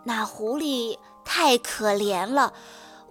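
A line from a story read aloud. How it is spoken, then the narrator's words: Low voice. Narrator (Chinese): 他低声跟太太商量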